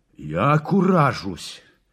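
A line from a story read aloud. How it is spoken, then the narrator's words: Pained roar. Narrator (Russian): Взревел он, будто его кольнули острым в больное место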